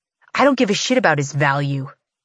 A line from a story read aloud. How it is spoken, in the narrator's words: Bree snaps